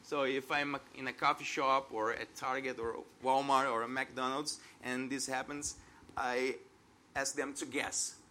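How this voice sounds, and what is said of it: Foreign accent in English. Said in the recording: “they judge me not just because of my accent”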